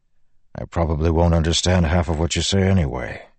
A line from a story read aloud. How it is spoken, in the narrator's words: he grumbled